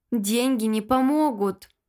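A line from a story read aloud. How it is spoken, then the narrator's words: Man sighing. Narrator (Russian): вздохнул мужчина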